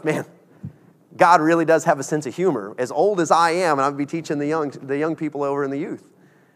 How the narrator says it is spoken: But he started laughing, and he goes

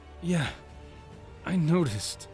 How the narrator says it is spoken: Link groaned

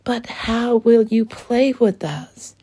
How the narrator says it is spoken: shouted one of the girls

